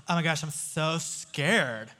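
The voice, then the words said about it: Imitated fifth-grade girl's voice. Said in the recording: “That's my fifth grade girl voice.”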